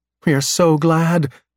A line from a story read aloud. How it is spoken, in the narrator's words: Eve exclaims